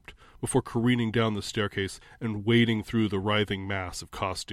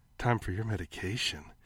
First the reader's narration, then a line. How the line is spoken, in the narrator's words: purred